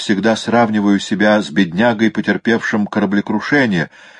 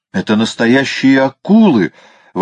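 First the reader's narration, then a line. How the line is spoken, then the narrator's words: Exclaimed, professor. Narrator (Russian): воскликнул профессор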